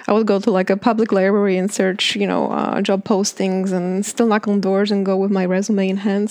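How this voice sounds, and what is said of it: Heavy Polish accent. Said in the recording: “I spent 18 years of my life in Poland ... I am 100% American with a heavy accent if it doesn't want to leave me.”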